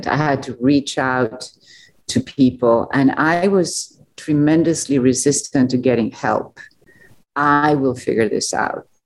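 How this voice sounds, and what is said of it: Non-local foreign accent. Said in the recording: “I'm not from around here, judging from my accent.”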